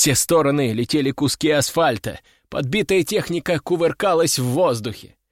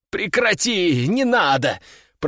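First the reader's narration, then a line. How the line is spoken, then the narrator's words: Groaned. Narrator (Russian): простонал я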